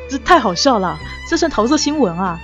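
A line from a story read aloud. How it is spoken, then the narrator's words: Laughing aloud. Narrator (Chinese): 他笑出声来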